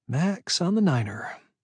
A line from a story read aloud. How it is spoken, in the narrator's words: she said quietly, almost to herself